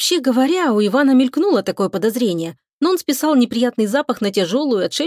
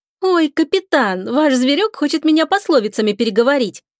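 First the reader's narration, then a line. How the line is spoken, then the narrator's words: Cheerful laughter. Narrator (Russian): весело засмеялась Лика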